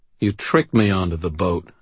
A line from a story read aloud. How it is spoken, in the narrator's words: I said